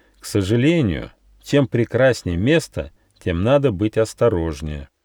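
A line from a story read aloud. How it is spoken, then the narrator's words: Plain. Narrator (Russian): сказал Нюфа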